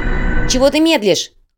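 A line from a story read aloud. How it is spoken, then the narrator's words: Shout. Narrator (Russian): крикнула Майя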